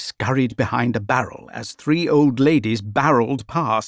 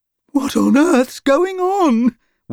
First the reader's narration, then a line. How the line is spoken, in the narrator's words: Weed cried